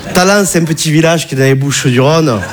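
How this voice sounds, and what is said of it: Southern French regional accent. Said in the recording (French): “tu as vu mon accent, je viens pas de Bagnolet”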